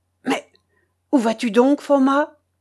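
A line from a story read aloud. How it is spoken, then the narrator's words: Frightened exclamation. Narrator (French): s'écria effrayé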